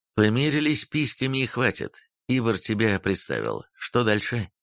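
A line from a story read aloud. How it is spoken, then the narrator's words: Plain. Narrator (Russian): спросил я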